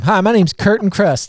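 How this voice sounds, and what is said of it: Put-on Southern US accent. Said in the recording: “I don't know why I said it with like a southern accent”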